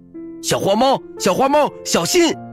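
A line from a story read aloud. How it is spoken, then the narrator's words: Loud cry. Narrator (Chinese): 小熊大叫道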